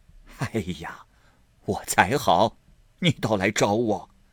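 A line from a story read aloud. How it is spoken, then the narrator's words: Old lady laughing. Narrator (Chinese): 贾母笑道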